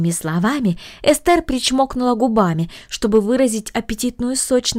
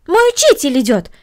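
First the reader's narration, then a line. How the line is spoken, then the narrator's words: Exclaiming. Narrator (Russian): воскликнула Корнелли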